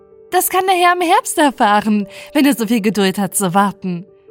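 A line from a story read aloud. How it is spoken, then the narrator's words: Laughing woman. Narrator (German): lachte sie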